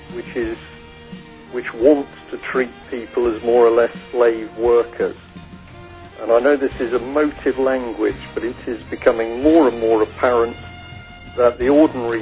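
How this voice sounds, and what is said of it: English accent. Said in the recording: “you could tell from his accent that he's an Englishman”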